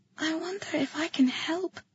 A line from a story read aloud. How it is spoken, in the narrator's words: I told her softly